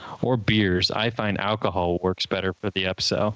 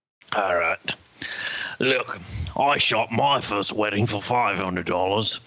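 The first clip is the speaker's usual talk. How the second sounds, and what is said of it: Put-on Australian accent. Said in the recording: “read that in your Australian accent again”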